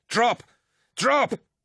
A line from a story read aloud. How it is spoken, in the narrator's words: Lucius yelled